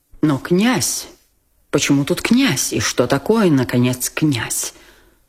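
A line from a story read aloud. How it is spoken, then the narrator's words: Indignant mutter. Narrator (Russian): пробормотал генерал, почти уже не в силах сдержать негодование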